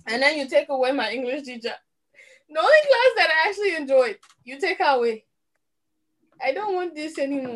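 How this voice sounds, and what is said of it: Accent coming through more strongly. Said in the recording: “I love when your accent kicks in.”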